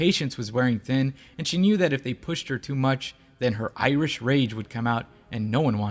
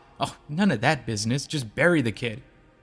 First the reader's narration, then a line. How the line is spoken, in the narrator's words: The lady scoffed